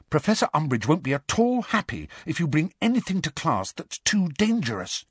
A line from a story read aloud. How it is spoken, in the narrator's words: said urgently, dropping all pretense